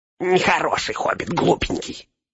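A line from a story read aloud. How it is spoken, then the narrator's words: Angry reply. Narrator (Russian): отозвался Горлум, сердито сверкнув глазами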